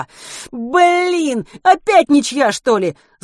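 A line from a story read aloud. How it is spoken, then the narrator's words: Sudden annoyed yell. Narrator (Russian): с досадой заорал вдруг Чернышов прямо в ухо Матвею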